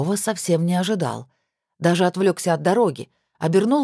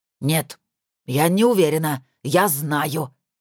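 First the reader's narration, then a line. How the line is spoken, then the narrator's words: Angry exclamation. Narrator (Russian): сердито воскликнула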